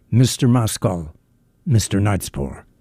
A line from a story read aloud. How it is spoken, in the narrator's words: the manservant announced in a subdued but distinct voice